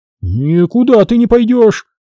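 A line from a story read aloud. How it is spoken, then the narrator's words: Shouting. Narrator (Russian): закричал мужик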